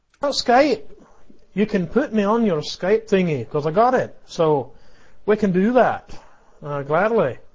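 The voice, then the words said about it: Southern US accent, Alabama. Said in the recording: “we need his southern drawl. I mean, we have ... You sound like an educated man from Alabama.”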